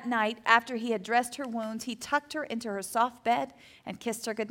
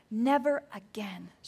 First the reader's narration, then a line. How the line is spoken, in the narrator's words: she whispered, apologizing